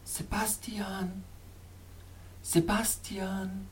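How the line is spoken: Soft echoing murmur. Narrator (German): murmelte wieder die sanfte, echoartige Stimme, die von den Felswänden neben mir kam

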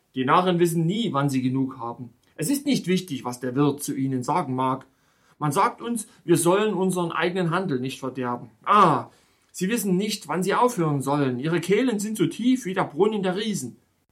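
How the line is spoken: Disgusted innkeeper's shout. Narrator (German): rief der Wirt mit einer Geste des Ekels

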